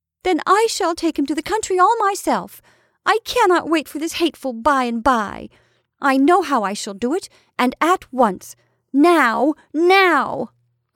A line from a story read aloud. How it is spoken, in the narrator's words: cried Fay, losing patience